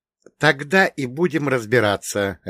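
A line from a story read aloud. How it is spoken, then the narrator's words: Answered sharply. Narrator (Russian): резко ответил я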